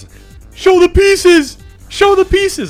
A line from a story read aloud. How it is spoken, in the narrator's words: a guy in the front row, yells